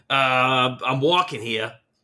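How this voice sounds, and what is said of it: Put-on New York accent. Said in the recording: “I guess that's a New York guy, but that's my best New York accent.”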